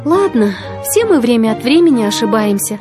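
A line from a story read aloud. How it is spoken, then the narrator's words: Sighing. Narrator (Russian): вздохнула она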